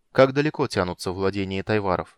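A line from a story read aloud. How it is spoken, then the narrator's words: Plain question. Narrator (Russian): спросил Танис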